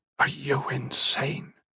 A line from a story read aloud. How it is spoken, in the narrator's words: still looking at the ground, whispered